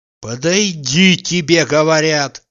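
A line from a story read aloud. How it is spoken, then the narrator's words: Menacing. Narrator (Russian): грозно произнес Обломов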